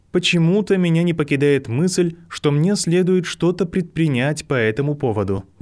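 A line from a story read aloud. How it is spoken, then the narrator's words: Sigh. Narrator (Russian): вздохнула МакГонагалл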